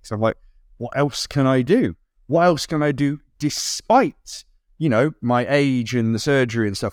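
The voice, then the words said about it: Excited, energetic speaking voice. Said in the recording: “you can probably hear it in my voice, I'm really excited”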